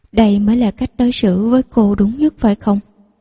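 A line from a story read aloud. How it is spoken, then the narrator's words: Sad, smiling. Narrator (Vietnamese): buồn bã mỉm cười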